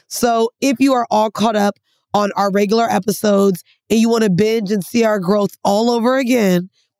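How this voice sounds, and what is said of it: Congested, stuffy nasal voice. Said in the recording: “I don't know what accent that is ... some weird, like, ... Thing coming out. Maybe because you're not feeling well ... I don't feel well at all. Like, my nose is fucking clogged ... sounds like shit”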